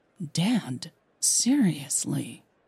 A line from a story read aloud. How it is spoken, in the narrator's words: Millie whispered